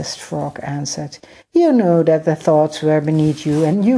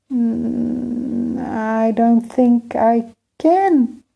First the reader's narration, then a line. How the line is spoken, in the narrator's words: Emir said sadly